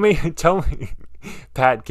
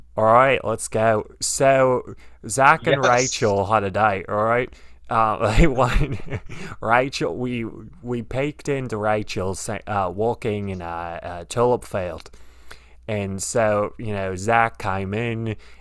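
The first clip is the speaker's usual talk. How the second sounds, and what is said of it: Put-on Australian accent. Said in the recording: “can you give me an accent to speak in while we talk about this date? ... Let's go with Australian. Can you do Australian?”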